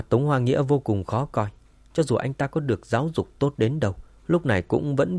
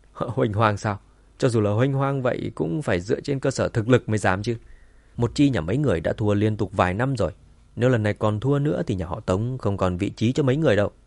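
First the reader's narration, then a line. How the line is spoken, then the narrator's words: Loud laughing. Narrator (Vietnamese): Tống Hòa Đồng cười lớn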